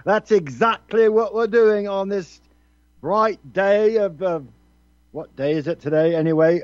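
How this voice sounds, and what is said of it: Put-on English accent. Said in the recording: “let me get my English accent right.”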